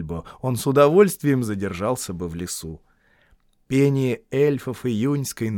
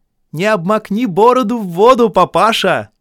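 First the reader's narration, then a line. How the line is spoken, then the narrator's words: Mocking shout. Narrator (Russian): кричали эльфы Торину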